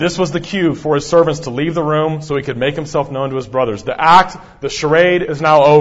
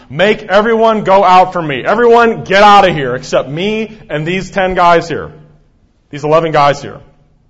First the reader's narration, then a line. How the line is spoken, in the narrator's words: Joseph literally yells out loudly